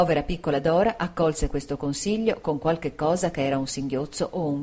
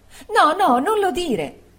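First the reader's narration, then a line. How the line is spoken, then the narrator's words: Exclaimed. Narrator (Italian): esclamò Dora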